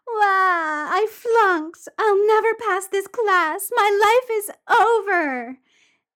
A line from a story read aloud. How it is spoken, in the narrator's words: Wakaba starts to wail, and she's like